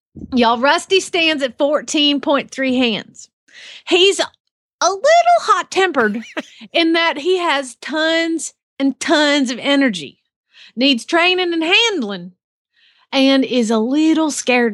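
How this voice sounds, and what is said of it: Put-on Southern accent. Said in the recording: “I got this Southern accent thing down”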